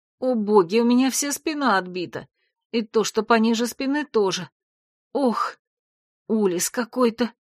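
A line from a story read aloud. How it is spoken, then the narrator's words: Groaning in pain. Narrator (Russian): Простонала я, так как в эту минуту попыталась пошевелиться, и от копчика вверх по позвоночнику стрельнула болью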